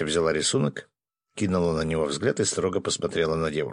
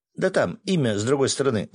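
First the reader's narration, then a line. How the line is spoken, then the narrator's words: Joyful rapid chatter. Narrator (Russian): радостно затараторил Ваня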